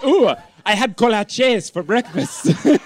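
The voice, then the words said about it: Exaggerated Spanish-accented pronunciation. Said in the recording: “I keep saying with a Spanish accent ... You keep putting flavor on it”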